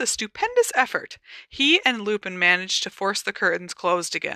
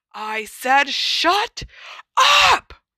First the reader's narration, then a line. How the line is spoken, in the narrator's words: roared the man